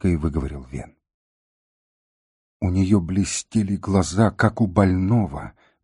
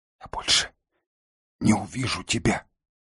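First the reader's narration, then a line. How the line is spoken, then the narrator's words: Whispering. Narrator (Russian): шептала Кнесинка Елень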